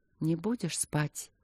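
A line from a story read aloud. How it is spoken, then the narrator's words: Stern tender whisper. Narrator (Russian): прошептала она с той же строгостью, в которой, однако, отчетливо слышалась звенящая нежность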